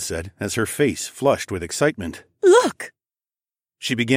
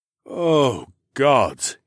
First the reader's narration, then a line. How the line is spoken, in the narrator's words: he sighed